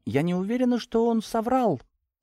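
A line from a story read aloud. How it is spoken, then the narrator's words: Very quiet. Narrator (Russian): закончила совсем тихо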